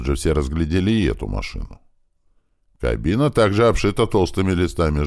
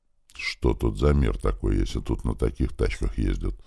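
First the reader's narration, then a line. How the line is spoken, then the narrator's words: Thoughtful question. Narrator (Russian): задумчиво спросил Иван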